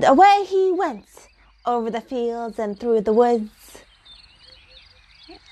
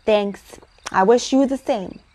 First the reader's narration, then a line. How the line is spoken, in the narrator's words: answered Uncle Wiggily